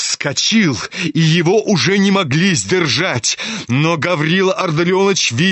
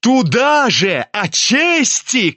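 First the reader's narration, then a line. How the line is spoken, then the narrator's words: Angry shout. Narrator (Russian): крикнул он злобно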